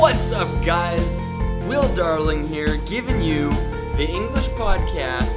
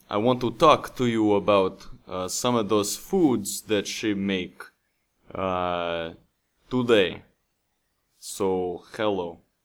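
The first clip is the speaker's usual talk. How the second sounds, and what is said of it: Weak put-on Russian accent. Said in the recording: “do I need to work on my Russian accent”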